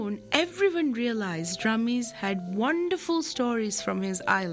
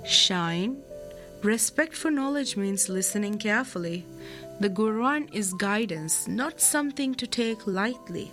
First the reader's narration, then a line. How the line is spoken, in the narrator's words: Teacher Ibrahim gently reminded